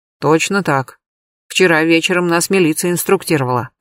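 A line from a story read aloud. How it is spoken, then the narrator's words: Plain. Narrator (Russian): ответил тот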